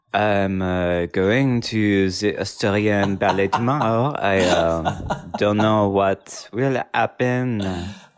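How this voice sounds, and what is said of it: Put-on Australian accent. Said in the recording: “Wow, you nailed it. ... Is that Australian? ... You absolutely slayed your Australian French accent.”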